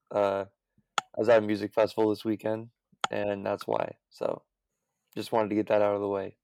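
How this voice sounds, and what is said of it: Strained, worn-out voice. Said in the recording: “my voice sounds a little shot.”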